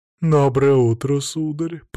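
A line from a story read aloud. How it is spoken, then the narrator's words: Low chesty singsong. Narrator (Russian): пропела она низким грудным голосом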